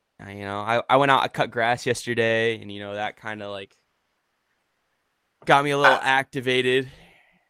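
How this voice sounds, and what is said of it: Deep, congested stuffy-nosed voice. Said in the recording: “Dang old allergies, man. I feel like I just, my face feels heavy. I'm blowing my nose. My voice sounds deep.”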